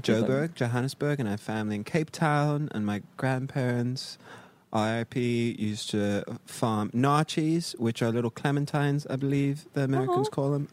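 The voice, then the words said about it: Non-American, British-sounding accent. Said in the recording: “is this dude British? Like, what's with the accent?”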